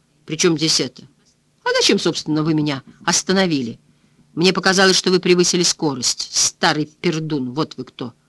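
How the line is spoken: Snort. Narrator (Russian): фыркнула миссис Ральф

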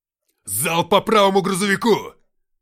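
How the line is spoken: Barked over radio. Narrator (Russian): рявкнул лейтенант в рацию

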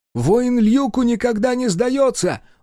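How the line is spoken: Shouted. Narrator (Russian): выкрикнул Тодью

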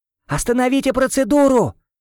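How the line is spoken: Shout in own voice. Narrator (Russian): крикнул я уже своим голосом

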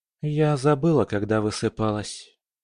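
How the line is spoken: Sighing. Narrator (Russian): вздохнула Полина

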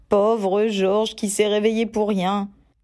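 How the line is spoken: Sorry, regretful tone. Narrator (French): fit Ron d'un ton désolé

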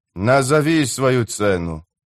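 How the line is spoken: Sighing. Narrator (Russian): вздохнул Калам

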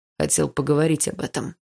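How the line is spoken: Calm young man. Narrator (Russian): спокойно ответил парень

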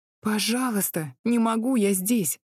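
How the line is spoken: Pleading. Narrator (Russian): взмолилась

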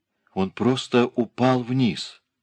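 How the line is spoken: Quiet pleading voice. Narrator (Russian): промолвила женщина тихим, умоляющим голосом, будто хотела спрятаться глубоко в себя

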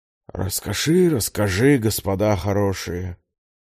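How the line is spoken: Heavy sigh. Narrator (Russian): тяжело вздохнул

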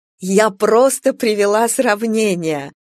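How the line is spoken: Increasingly loud laughter. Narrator (Russian): все громче смеялась Анна Аркадьевна

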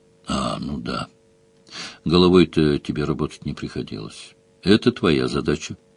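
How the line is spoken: Calm girl's reply. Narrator (Russian): спокойно ответила девчонка

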